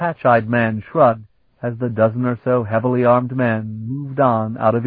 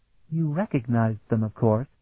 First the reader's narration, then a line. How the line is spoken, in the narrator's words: Afriel murmured to Sparhawk